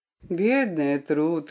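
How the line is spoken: Tender. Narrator (Russian): ласково сказал он

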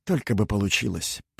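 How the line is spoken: Muttered. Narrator (Russian): пробормотал Винчер

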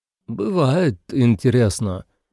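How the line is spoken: Uncertain. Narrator (Russian): неуверенно сказал Отто

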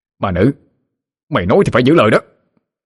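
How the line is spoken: Shout. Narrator (Vietnamese): Hắn hét lên

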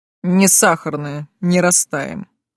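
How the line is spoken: Snort. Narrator (Russian): фыркнул Тейт

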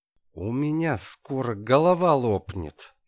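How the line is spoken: Groaning through grinding teeth. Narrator (Russian): скрежеща зубами простонал Калашников

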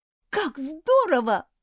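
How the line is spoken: Exclaimed. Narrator (Russian): воскликнула Дженни

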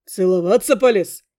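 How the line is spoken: Young man's smirking hum. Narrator (Russian): хмыкнул парень

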